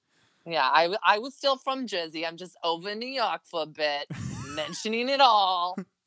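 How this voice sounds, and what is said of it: Weak put-on New Jersey accent. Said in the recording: “Was that a good Jersey accent? It probably wasn't. I'm not good with accents... they're all just one accent”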